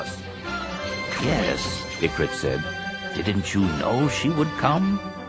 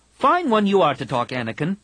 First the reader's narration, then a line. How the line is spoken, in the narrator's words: Tahiri snapped